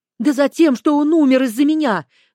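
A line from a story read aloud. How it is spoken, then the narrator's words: Exclaiming. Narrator (Russian): воскликнула я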